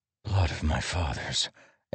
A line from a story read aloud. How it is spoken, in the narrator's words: Adolin whispered